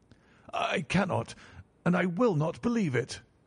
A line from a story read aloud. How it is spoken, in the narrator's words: cried the banker with an ashen face